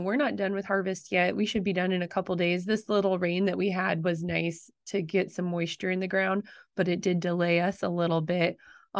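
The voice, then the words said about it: Slightly raspy voice. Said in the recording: “I'm a little raspy, and I think it's from all of that exposure of all the fines”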